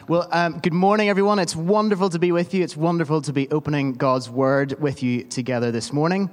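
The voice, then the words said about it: Northern Irish accent. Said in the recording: “such a glorious Northern Irish accent”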